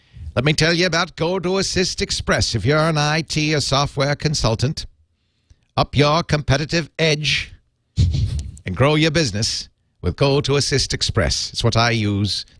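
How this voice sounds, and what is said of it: Drifting into an Irish accent. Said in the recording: “Now I'm starting to sound Irish. I don't know how that happens. I've got a real problem with accent drift ... Suddenly we're in Galway.”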